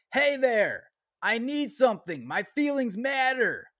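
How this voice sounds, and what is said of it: Yelling. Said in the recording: “it was an exclamation point, so that's why I'm yelling.”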